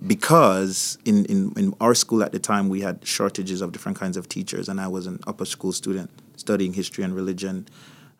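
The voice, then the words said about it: Jamaican accent. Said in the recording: “if you're hearing an accent, I come from Jamaica.”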